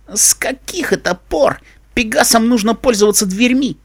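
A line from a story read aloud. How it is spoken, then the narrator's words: Laughing. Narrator (Russian): рассмеялась Дэш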